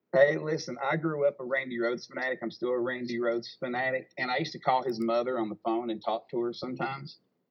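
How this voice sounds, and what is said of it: Southern US accent. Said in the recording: “is the one with the Southern accent.”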